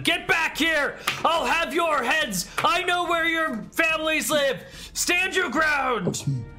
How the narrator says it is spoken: running after them, shouting at them

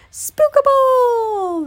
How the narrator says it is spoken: They wailed

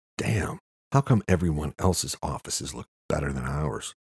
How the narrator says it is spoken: Luke whispered

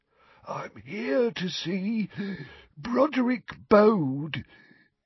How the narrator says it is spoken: he wheezed

